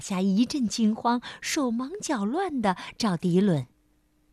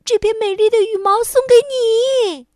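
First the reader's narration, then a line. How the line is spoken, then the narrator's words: Excited shout. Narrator (Chinese): 迪伦兴奋地冲着鸭妈妈喊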